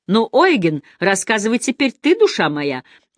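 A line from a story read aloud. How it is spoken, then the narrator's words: Loud, brash exclamation. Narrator (Russian): восклицает кошелот громко и бесцеремонно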